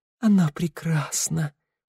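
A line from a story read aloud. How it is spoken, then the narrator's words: Whisper. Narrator (Russian): прошептал он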